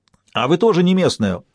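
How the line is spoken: Shout. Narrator (Russian): прокричал кто-то еще

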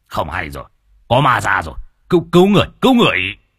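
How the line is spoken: Shouting. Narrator (Vietnamese): Lão nhị quát

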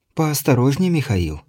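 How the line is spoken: Barely audible mild reproach. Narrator (Russian): с легкой укоризной едва слышно произнесла Ирина

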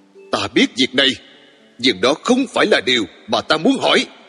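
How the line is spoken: Loud exasperated shout. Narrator (Vietnamese): Tôi không kìm được nữa, quát to

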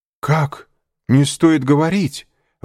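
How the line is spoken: Exclamation. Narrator (Russian): воскликнул Шато-Рено

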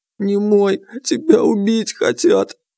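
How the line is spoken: Trembling voice. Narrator (Russian): дрожащим голосом сказала Глашка

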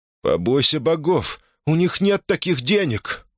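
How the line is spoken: Pleading, relieved. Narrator (Russian): умоляющим голосом произнес он, чувствуя невероятное облегчение

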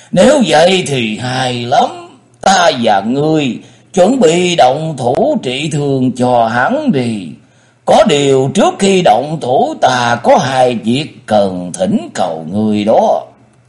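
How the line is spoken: Laughing loudly. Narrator (Vietnamese): Lục Chiếu Thần Quân cười lớn nói

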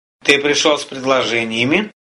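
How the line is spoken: Plain question. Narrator (Russian): спросил Арес

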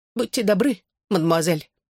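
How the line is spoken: Squeaking. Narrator (Russian): пискнул он

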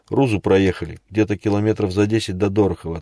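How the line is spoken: Plain. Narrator (Russian): ответила Вика

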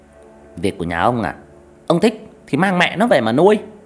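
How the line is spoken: Angry shouted retort. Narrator (Vietnamese): Mụ dì ghẻ trừng mắt quát lại

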